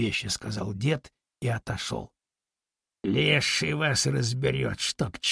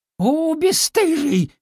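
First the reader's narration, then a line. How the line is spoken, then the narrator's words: Woman shouting. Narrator (Russian): крикнула баба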